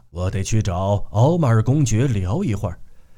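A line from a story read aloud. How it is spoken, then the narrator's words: Low voice, joking. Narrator (Chinese): 戈达尔低声说了他不久前才学到，可每次上同一地方都必说的那句笑话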